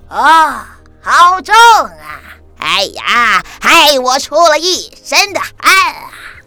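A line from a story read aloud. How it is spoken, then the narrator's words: Deliberately loud. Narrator (Chinese): 他故意大声地说给其他的同伴听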